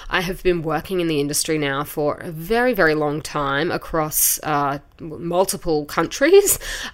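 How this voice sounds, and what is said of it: Australian accent. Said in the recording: “As you can probably tell from my accent, I am originally from Australia”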